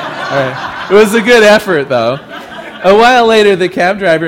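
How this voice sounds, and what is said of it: Usual voice. Nothing is said of it.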